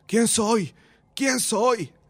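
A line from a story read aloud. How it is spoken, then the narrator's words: Wild shouting. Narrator (Spanish): gritó, salvajes gritos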